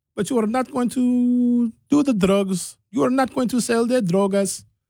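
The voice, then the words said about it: Put-on Spanish accent. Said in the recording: “I don't know why that accent is Spanish.”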